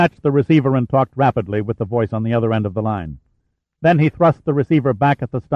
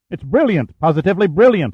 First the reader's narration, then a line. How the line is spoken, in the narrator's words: Hunter said excitedly